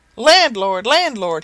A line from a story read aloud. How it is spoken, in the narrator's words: he cried, imitating the voice of the singing-master